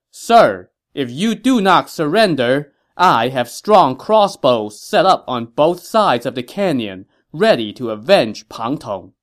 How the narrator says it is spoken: Zhuge Liang called out to Li Yan from atop a hill

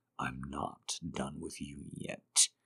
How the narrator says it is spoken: he growls

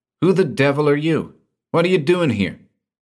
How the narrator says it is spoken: he snapped

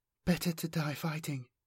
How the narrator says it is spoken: Lethesia whispered back

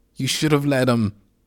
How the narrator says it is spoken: shouted Esteban along with a series of curse words in Spanish

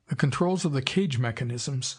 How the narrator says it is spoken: said Alten

